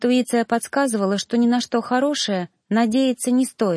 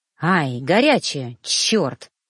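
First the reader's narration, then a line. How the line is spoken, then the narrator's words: Pained hiss, burnt tongue. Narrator (Russian): зашипел жнец, высовывая обожженный язык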